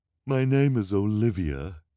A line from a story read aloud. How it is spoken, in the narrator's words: said finally, with a shuddering sigh